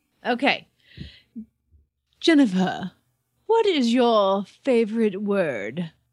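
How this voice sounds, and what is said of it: Impression of James Lipton. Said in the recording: “I'm going to stop impersonating James Lipton now”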